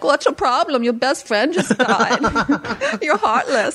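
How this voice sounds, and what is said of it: Imitates another person's voice. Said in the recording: “it's a dead on impersonation”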